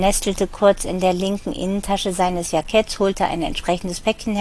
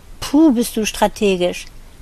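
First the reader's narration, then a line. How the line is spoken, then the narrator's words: Groaning. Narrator (German): sie stöhnte dieses Wort nur noch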